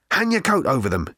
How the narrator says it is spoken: he muttered to Fenchurch

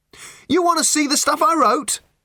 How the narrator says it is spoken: He shouted

